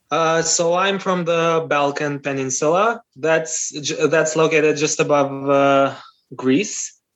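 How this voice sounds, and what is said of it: Non-American, non-British English accent. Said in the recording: “you have neither a typical American accent or a typical UK accent”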